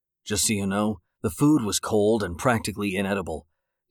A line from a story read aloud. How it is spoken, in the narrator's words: David growled in the waiter's ear